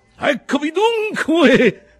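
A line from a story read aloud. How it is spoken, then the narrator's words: Shouted. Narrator (Italian): gridò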